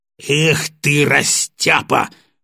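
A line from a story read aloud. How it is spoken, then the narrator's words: Exasperated bark. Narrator (Russian): в сердцах рявкнул Батоныч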